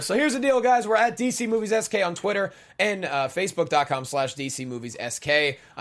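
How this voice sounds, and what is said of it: Hoarse, partly lost voice. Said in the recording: “My voice is kind of lost”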